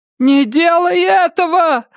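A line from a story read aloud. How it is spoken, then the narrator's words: Screaming. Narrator (Russian): завопила миссис Самара Судительность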